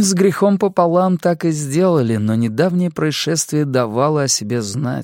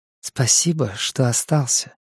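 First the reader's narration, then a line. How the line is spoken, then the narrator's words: Soft. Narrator (Russian): мягко сказала она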